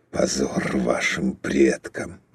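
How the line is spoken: Muttered. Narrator (Russian): пробормотал он

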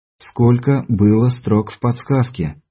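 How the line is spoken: Even, level voice. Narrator (Russian): ровным голосом повторил мастер

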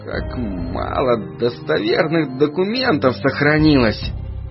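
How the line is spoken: Sigh. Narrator (Russian): вздохнул он

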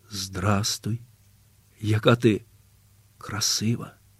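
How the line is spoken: Quiet, tender. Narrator (Ukrainian): сказав Василь тихо і ласкаво

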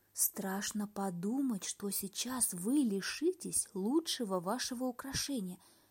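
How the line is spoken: Quiet. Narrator (Russian): сказала она тихонько монаху

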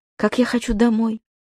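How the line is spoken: Quiet. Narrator (Russian): тихо сказал Сережик

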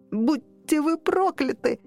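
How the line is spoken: Boy shrieking while struggling. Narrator (Russian): завизжал, вырываясь мальчик

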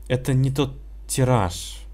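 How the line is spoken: Tired father. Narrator (Russian): устало сказал папа

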